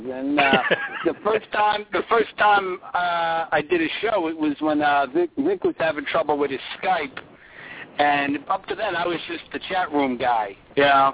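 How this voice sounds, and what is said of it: Noticeable accent. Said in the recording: “a lot of people bust my chops about my accent”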